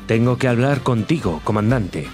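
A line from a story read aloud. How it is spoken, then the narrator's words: Plain. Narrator (Spanish): dijo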